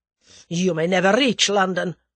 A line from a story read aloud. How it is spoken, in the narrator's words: snarled the other